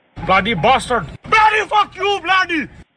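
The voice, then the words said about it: Shouting angrily. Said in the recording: “Why are you shouting at me?”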